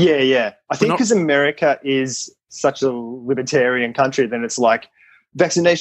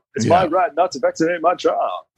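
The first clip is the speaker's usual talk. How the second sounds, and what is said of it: Imitates another person's voice. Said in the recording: “That was my impersonation of Obama.”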